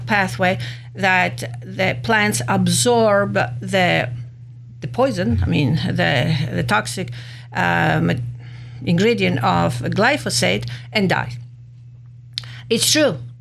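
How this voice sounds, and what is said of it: Speaker's accented English. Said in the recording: “Don't get confused with my accent.”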